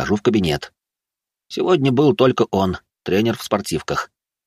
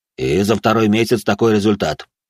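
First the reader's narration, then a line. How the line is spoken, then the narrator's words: Snorted. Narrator (Russian): хмыкнул он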